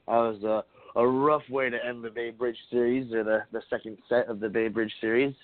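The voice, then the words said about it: Congested, stuffy voice. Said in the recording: “my allergies having me congested”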